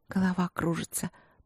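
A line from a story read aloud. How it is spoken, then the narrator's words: Languid princess mumbling. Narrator (Russian): пробормотала принцесса расслабленно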